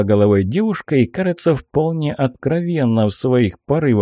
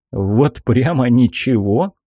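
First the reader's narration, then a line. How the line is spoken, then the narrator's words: Skeptical grunt. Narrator (Russian): хмыкнул я, недоверчиво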